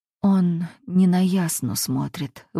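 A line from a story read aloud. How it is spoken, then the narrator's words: Hoarse whisper. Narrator (Russian): вырывается у меня хриплый шепот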